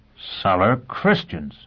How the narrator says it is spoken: Foyle exclaimed

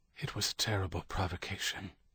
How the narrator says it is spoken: John whispered

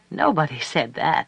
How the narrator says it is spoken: said Duhe, and laughed

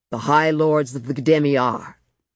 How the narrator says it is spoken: boomed out

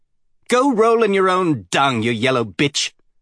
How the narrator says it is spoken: he shouted at her silence

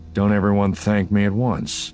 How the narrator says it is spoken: Han said dryly

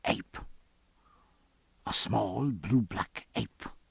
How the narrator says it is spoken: he whispered

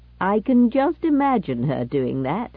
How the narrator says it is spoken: grinned Whittaker cheerfully

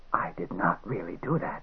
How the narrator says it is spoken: he said in a rasping voice

